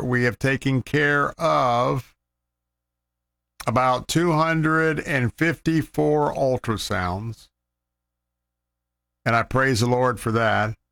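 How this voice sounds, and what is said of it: Slightly rough, frosty voice. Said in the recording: “my voice is a little bit frosty right now”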